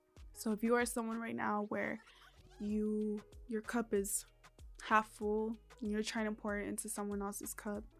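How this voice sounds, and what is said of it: Strained, fading voice. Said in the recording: “My voice is like, it's like running out.”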